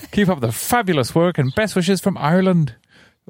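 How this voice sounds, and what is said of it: Put-on Irish accent. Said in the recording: “Could you read it again in an Irish accent, please?”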